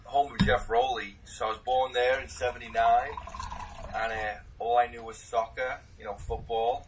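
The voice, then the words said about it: Liverpool English accent. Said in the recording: “Obviously sounding, you know, as funny as I do, all you Americans saying in that accent, I was born in Liverpool, England”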